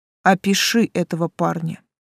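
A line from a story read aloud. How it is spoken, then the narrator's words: Curt, face down. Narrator (Russian): отрывисто кинул Тан, не поднимая лица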